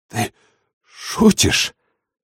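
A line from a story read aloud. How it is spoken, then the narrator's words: Forced out, strained. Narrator (Russian): выдавил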